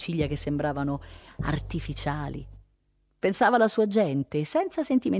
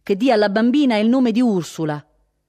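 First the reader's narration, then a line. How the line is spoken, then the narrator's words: Loud, clear reply. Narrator (Italian): rispose con voce alta e chiara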